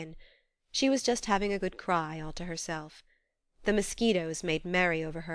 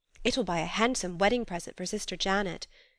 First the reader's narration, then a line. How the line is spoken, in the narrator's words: she exclaimed